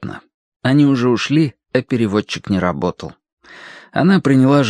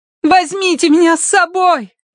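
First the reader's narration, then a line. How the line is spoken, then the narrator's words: Shouting after them. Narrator (Russian): крикнула Киврин им вслед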